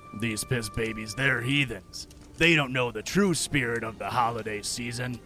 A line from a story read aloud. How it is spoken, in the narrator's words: The judgy grumbled to himself